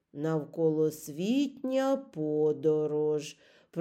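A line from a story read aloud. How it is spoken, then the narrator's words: Muttering. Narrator (Ukrainian): пробурмотів він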